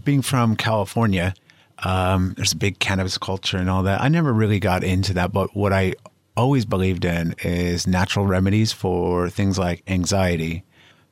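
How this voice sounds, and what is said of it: American accent. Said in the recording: “You can probably tell from my voice, I'm from the U.S., from Los Angeles”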